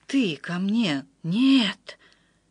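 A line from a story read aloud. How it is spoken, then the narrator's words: Whisper. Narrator (Russian): прошептал Отто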